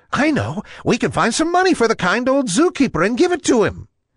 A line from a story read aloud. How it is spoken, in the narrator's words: the bat, Billy Big Ears, piped up